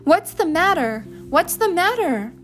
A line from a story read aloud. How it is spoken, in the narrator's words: they screamed